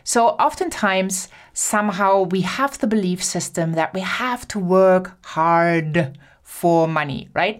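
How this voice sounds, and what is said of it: German accent. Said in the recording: “sorry for my German accent”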